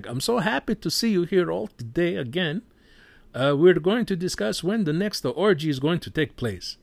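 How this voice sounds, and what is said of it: Put-on Italian accent. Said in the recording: “Russell Crowe speaks with an Italian accent.”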